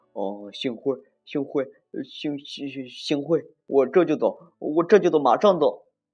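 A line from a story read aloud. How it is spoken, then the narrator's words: Stammering. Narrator (Chinese): 他结结巴巴地说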